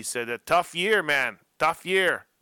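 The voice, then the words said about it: Put-on French accent. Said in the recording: “that's my best French accent”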